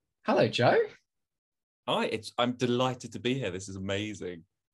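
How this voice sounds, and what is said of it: Exaggerated Cockney accent. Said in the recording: “You, are talking in a remarkably Cockney accent, far more than usual.”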